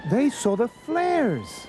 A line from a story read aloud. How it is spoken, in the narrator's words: cried Ralph